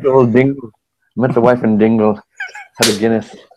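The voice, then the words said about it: Deliberately bad put-on Irish accent. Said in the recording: “I go into an Irish accent ... terrible accent ... I don't know why you broke into that accent”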